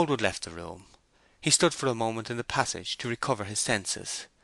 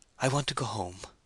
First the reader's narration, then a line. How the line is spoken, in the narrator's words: Remembering all that occurred, she murmured